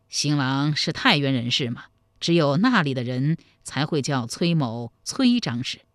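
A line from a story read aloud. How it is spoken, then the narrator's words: Chuckling. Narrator (Chinese): 崔神庆嘿嘿一笑说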